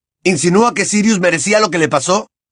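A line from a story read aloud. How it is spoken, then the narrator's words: Shouting. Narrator (Spanish): gritó Harry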